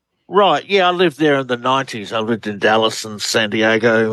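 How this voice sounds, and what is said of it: Australian accent. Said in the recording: “Australian researcher. Love the accent. ... You have a great one.”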